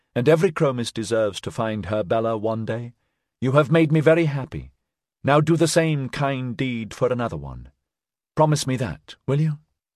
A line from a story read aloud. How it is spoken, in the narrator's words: she corrected kindly